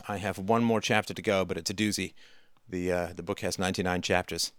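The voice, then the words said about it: Strained, worn-out voice. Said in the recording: “this voice killer of a book. I think you guys can hear that in my voice tonight.”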